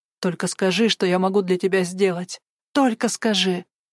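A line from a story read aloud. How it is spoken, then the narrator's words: Plain. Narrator (Russian): Она и сказала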